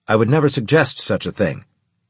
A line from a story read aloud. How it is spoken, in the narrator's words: Drusus said sternly